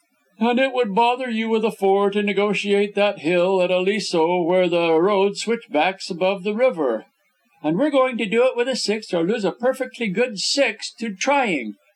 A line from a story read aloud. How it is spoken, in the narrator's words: Beth Drexel laughed